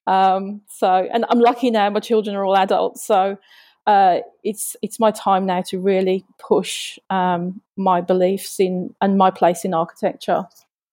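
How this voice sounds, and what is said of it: Speaks with an accent. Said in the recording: “you have an accent”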